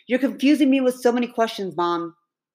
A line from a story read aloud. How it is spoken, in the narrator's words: Logan hurriedly blurting